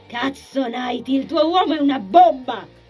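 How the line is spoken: Woman shrieking over din. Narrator (Italian): strillò la donna per farsi sentire in quella baraonda

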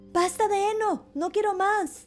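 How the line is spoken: Shouting again. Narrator (Spanish): gritó de nuevo Pulgarcito

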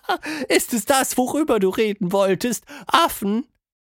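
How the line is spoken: Forced giggle. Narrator (German): Tilda kicherte, etwas gezwungen

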